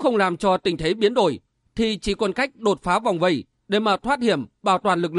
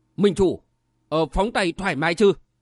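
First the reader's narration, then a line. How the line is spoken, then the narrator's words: Low voice. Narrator (Vietnamese): Đại mạc đồ thủ Khố Tị hạ giọng nói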